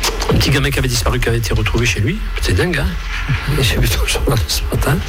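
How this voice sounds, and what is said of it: Usual voice. Nothing is said of it.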